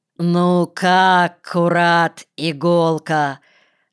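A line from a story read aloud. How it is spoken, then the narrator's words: Loud, emphatic, expressive question. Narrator (Russian): спросил Костя подчеркнуто громким выразительным голосом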